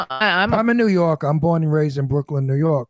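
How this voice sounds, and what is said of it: New York accent. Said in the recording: “I kind of can tell from the accent. ... definitely New York”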